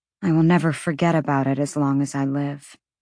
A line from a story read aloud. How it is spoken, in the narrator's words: Bryce answered, her voice dull